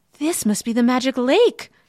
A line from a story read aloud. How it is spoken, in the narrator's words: she cried